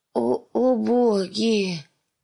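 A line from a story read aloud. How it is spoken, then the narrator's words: Groaning in pain. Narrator (Russian): простонал он, когда его нижняя рубаха начала багроветь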